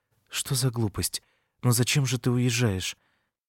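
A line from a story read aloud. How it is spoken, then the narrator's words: Mumbling. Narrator (Russian): бормотала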